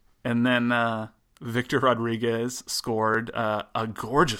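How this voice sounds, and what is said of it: Usual voice. Nothing is said of it.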